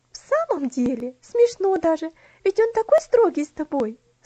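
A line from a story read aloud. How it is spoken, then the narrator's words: Laughing exclamation. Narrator (Russian): со смехом воскликнула Луси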